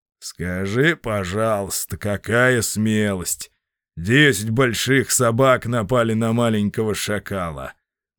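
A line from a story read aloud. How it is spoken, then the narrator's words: Mocking father. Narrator (Russian): насмешливо заметил отец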